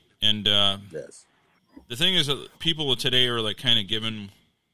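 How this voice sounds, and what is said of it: Usual voice. Nothing is said of it.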